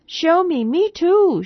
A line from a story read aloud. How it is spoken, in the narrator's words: shrieked the twins